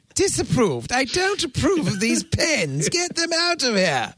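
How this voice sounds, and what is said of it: Put-on British accent, Monty Python style. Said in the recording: “has become a British man from a Monty Python skit... Sound like Monty Python with that accent”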